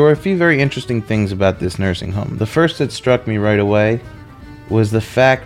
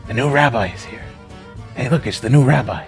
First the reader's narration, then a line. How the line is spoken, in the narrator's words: whispering